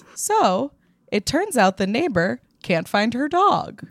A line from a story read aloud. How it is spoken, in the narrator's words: said calmly to us